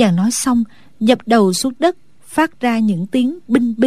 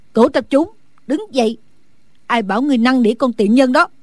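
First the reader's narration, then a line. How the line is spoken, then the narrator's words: Loud shout. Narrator (Vietnamese): Phương cô lớn tiếng quát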